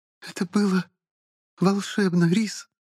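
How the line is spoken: Trembling voice. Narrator (Russian): дрожащим голосом вымолвила

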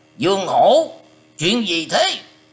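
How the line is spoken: Harsh, gritted shout. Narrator (Vietnamese): lão ta gằn giọng quát rằng

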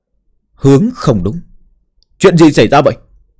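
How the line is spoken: Startled loud shout. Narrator (Vietnamese): Cao Kiến Thành hét lớn một tiếng

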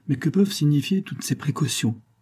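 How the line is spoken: Plain. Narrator (French): dit M

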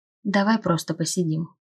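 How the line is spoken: Soft suggestion. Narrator (Russian): тихо предложил он

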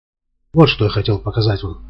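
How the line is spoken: Indifferent voice. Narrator (Russian): безразличным голосом говорит

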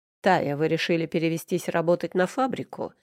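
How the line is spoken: Sarcastic. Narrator (Russian): язвительно начал он

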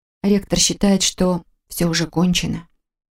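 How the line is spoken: Quiet remark. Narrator (Russian): тихо заметила

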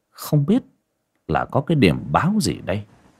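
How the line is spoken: Frightened muttering. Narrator (Vietnamese): Mọi người kinh hãi, lẩm bẩm nghĩ

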